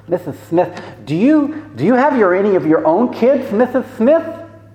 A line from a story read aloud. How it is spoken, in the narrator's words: lisps